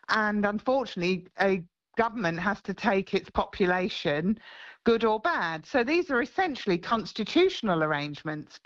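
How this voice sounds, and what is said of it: English accent. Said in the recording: “I know I've still got an English accent,”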